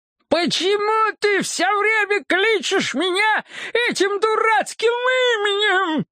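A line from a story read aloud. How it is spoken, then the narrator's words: Shrieking, spluttering. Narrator (Russian): завизжал он, брызжа слюной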